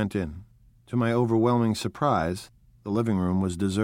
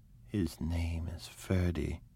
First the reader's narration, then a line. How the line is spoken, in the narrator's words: in a grave murmur